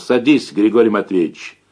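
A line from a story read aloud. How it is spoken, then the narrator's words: Muffled, hollow voice. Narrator (Russian): глухо сказал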